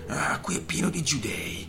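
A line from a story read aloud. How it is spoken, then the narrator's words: Whispered. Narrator (Italian): sussurrò il portoghese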